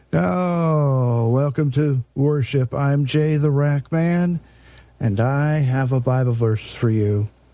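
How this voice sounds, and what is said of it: Hoarse, fading voice. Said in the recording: “My voice is going away.”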